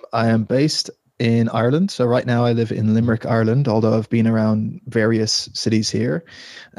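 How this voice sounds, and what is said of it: Irish accent, not typical, London influence. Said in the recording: “sounds like you've got a little bit of a, a different accent ... I am Irish, although the accent isn't maybe the typical Irish accent. I was actually born in London”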